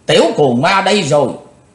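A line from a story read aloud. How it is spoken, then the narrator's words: Loud shout. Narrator (Vietnamese): Tên đứng đầu quát lớn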